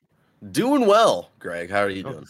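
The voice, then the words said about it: Smooth radio announcer voice. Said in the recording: “that was a good radio voice.”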